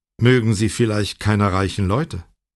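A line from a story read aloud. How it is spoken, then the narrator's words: Plain. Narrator (German): fragte er schließlich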